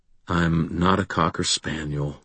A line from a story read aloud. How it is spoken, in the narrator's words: I said quietly